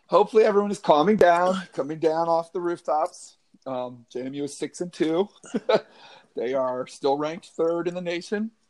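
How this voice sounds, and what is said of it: Worn, strained voice. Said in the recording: “as you can tell from my voice. I'm not fully recovered from a long homecoming weekend”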